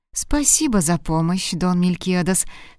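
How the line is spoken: Plain. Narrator (Russian): сказала донья Урсула

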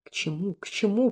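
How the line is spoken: Moaning. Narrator (Russian): простонал казначей

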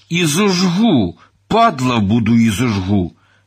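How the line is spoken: Hissed. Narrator (Ukrainian): Гаврош прошипів би

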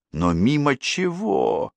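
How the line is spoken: Near moan. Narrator (Russian): почти простонала Дель Пьеро

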